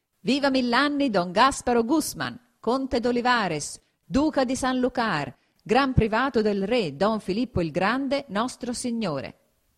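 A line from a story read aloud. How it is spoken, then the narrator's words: Exclamation. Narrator (Italian): esclamò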